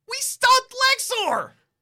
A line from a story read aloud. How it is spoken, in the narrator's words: You shout into the headset